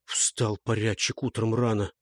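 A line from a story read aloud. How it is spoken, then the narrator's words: Muttered. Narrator (Russian): пробормотал Знобиша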